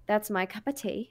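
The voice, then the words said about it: Poor put-on British accent. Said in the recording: “That was a British accent, and it was horrible.”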